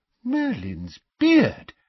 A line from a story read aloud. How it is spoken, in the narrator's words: exclaimed Mr